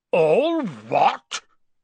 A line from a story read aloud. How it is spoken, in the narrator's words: Hagrid thundered